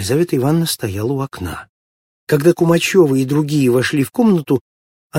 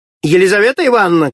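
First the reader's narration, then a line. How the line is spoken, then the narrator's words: Shout. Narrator (Russian): крикнула она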